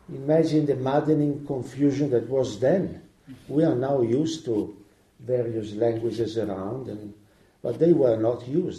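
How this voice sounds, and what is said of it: Non-native English accent. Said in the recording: “I'm speaking in a language that is not my language. ... you will notice it, and my mistakes and accent.”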